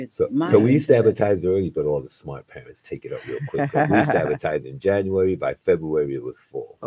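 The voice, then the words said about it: New York accent. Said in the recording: “I can hear the New York accent.”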